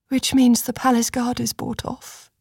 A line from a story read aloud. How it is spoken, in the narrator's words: Cressa breathed